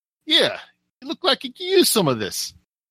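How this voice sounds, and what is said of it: Heavy New York/New Jersey accent. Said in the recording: “With a very heavy, like, New York, New Jersey accent ... I'm gonna murder this accent.”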